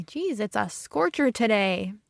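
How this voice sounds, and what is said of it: Midwestern accent, stretched long vowels. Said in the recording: “Sounds very Midwest, the way I just sounded. ... I stretch out my long vowels and I sound very Midwestern.”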